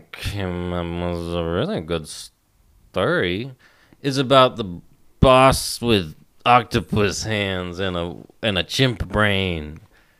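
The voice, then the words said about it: Slurred drunk voice. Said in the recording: “doing her best drunk voice”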